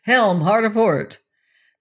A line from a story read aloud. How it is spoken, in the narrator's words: he cried to Van der Kuylen